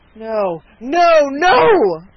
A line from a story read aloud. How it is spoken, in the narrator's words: cried the peddler in a voice and with a manner that startled Dunwoodie